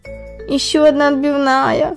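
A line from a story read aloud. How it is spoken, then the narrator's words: Groaning. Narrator (Russian): простонал комар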